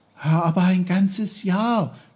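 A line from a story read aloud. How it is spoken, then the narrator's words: Calling out. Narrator (German): rief Peter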